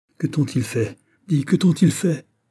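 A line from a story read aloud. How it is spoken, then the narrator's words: Teenage boy whimpering. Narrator (French): L'adolescent pleurnichait comme une fillette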